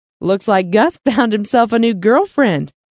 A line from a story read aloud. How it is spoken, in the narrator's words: giggled Elizabeth